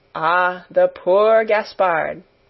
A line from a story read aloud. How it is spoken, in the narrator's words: with a sigh of great compassion